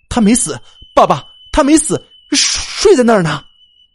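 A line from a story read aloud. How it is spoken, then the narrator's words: Tense, loud. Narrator (Chinese): 他心中立刻一紧，大声说道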